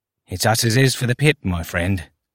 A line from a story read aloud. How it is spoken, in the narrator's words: he said under his breath